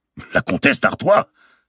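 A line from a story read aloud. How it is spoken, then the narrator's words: Exclaimed. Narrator (French): s'écria-t-il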